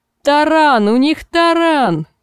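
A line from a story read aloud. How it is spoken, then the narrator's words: Shout from the wall. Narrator (Russian): крикнули со стены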